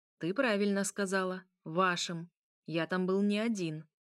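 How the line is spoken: Even tone. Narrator (Russian): Он ответил ровным тоном

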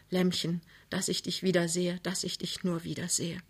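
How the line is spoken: Very soft whisper. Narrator (German): flüsterte ganz leise

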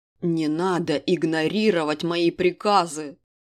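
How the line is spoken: Furious growl. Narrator (Russian): прорычал доведенный до предела неадекватности король

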